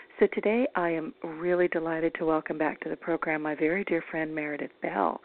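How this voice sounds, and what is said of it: Slightly raspy voice. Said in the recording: “I'm a little raspy today”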